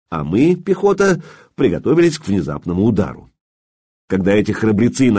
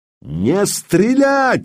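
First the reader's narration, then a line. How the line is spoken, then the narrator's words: Yelling in three languages. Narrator (Russian): заорал я поочередно на трех языках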